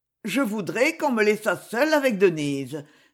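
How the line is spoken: Clear, distinct voice. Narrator (French): dit-il d'une voix distincte

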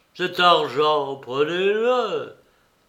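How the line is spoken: Said with a sigh. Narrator (French): dit-il en soupirant

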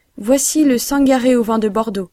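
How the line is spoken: Shrill, yelping. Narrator (French): répliquait un autre d'un ton glapissant

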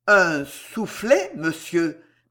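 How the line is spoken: Stammering. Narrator (French): balbutia M

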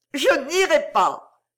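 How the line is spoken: Sobbing cry. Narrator (French): cria Iris dans un sanglot

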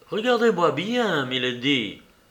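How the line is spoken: Exclamation. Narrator (French): s'écria-t-elle

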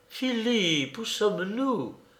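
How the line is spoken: Soft exclamation. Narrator (French): s'écria-t-elle d'une voix douce

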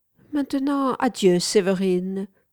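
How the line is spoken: Plain. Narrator (French): dit-elle

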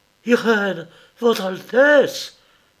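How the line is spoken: Stammered. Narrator (French): balbutia-t-il

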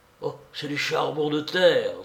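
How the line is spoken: Exclaimed. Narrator (French): s'écria-t-il

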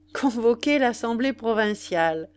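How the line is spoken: Laughing, repeating. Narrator (French): répétait l'indépendant en riant

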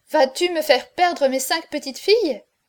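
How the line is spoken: Exclaimed. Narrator (French): s'écria la Nivelle

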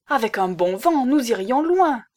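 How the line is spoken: Exclaimed. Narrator (French): s'écria-t-il

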